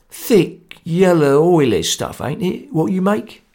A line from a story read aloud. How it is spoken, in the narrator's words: he asked